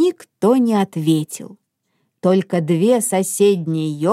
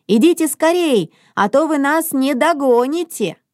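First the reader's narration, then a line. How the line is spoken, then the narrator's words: Shouted while walking. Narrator (Russian): На ходу Мона крикнула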